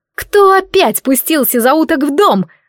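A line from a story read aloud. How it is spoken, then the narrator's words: Yell. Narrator (Russian): заорала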